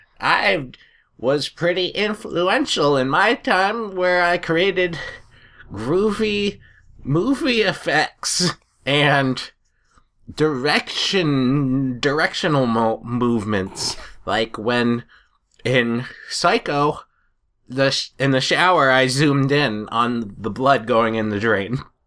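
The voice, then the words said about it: Imitates another person's voice. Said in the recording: “That was my impression of Alfred Hitchcock.”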